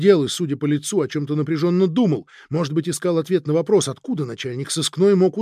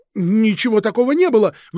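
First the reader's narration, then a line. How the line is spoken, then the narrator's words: Defensive shout. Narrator (Russian): выкрикнул Сергей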